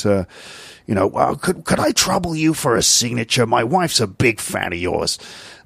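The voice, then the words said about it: Impression of a TV detective's voice. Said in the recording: “good Columbo impression”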